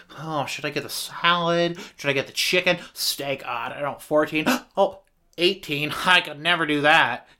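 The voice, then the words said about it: Weird put-on voice. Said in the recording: “weird voice I just did”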